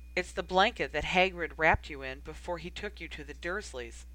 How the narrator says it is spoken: Sirius said quietly

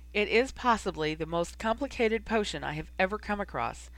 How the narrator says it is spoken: he said a bit sadly

